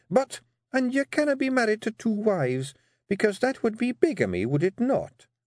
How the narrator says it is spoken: said Jeanie, her voice dangerously sweet

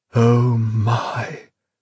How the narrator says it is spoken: breathed Lilliman

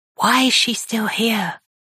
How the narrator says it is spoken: He whispers

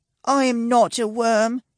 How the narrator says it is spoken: he whines sleepily

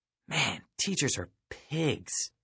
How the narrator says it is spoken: I hissed

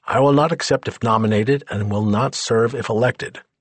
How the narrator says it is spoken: he replied curtly

